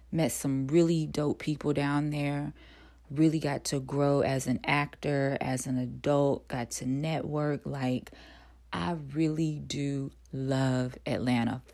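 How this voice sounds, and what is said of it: Relaxed North Carolina Southern accent. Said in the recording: “I'm originally from North Carolina, and I'm sure most of you have probably picked that up by now because my tongue is relaxed and I'm not trying to hide the accent.”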